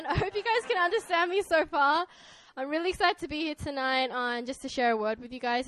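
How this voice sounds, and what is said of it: Australian accent. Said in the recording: “this is my Australian accent.”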